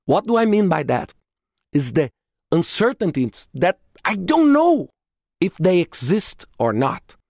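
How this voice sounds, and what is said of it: Speaks English with an accent. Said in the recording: “I apologize for my accent”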